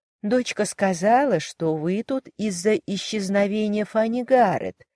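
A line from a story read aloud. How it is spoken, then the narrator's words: Ingratiating inquiry. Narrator (Russian): Миссис Крэнфилд вкрадчиво поинтересовалась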